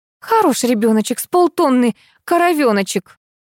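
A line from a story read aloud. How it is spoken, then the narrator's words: Snorting remark. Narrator (Russian): хмыкнула Лариса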